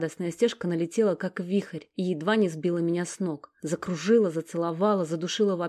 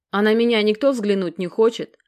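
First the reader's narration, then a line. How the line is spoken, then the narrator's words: Offended female voice. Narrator (Russian): оскорбленно напомнила о себе Алекс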